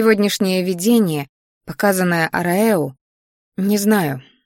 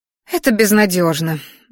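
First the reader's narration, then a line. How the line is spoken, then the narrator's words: Sigh. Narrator (Russian): вздохнула Араилис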